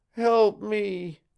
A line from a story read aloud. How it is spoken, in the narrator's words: she moaned